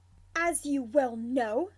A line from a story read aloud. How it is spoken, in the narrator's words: Snivellus snaps in return